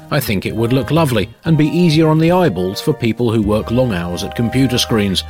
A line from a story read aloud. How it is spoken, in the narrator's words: says Jason